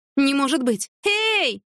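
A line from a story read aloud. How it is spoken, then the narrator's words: Shouted. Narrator (Russian): закричала она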